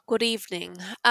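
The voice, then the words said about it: Put-on English accent. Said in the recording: “I should just adopt my preferred English accent.”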